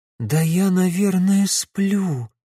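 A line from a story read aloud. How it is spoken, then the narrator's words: Breathless girl. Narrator (Russian): выдохнула девушка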